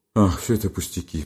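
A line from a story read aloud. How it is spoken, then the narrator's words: Groaning. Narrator (Russian): простонал Бобров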